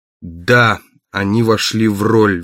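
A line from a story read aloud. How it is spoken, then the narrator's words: Forced, strained. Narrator (Russian): выдавил из себя Барни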